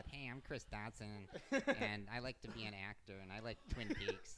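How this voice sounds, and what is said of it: Imitates another person's voice. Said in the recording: “Anytime people do an impression of me, that's how it always comes out.”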